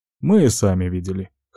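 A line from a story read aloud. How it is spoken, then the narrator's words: Snort. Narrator (Russian): хмыкнул Юдзира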